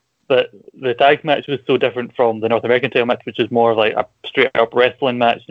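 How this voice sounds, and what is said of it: Strong own accent, hard to understand. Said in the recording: “my accent's hard to pronounce, hard to understand”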